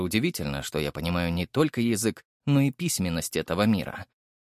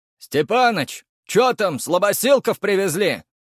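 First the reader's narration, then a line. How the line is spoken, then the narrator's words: Shouted from afar. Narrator (Russian): выкрикнули со стены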